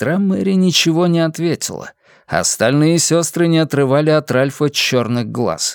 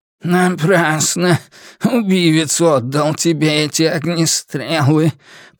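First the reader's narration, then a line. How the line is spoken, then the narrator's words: Grumbling. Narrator (Russian): пробурчал он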